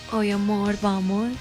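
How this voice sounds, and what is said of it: Put-on Colombian paisa accent. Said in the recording (Spanish): “usted me responde en acento paisa”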